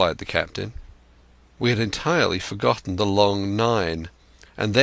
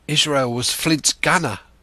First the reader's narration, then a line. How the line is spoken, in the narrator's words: said Grey, hoarsely